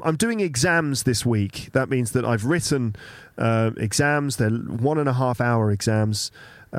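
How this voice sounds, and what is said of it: Slightly sick voice. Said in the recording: “I'm still getting over the flu ... You can probably hear it in my voice a little bit.”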